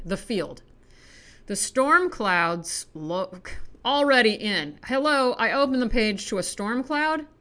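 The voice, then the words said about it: American accent. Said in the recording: “my hideous American accent”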